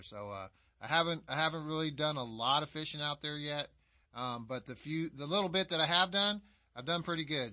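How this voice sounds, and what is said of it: Southern American accent. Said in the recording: “you can start to hear my southern accent come out”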